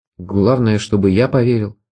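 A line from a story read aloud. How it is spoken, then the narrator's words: Muttered. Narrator (Russian): пробормотал я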